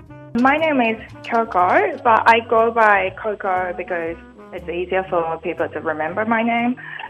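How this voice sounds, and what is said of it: Slight New Zealand-type accent. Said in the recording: “there's a hint of a Australian or New Zealand accent”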